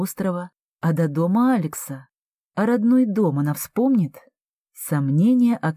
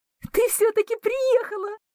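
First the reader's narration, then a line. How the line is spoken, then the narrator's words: Excited squeal. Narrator (Russian): взвизгнула Эмма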